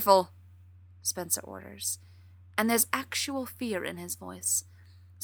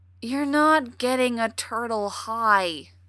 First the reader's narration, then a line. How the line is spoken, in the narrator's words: Spencer says wearily